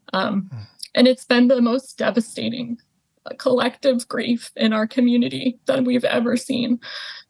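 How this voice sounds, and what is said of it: Emotional, choked-up voice. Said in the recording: “choking up now ... you can hear in my voice, it's just immense, immense pain”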